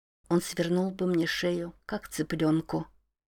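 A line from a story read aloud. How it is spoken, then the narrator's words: Quiet. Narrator (Russian): тихо проговорила она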